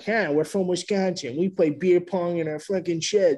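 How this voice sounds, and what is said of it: Put-on Boston accent. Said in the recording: “Their accents really changed. ... Yeah, they went Bostonian.”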